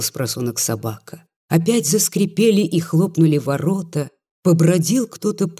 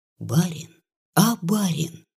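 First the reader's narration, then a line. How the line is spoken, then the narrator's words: Barely audible sudden call. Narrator (Russian): еле слышно позвала нежданно Дуня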